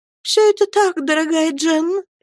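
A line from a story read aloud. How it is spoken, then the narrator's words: Humble trembling voice, mother. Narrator (Russian): смиренно дрожащим голосом промолвила матушка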